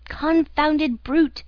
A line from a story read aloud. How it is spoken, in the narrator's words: cried the unhorsed horseman, suddenly degraded into a pedestrian, just as ashamed as a cavalry officer degraded to a foot soldier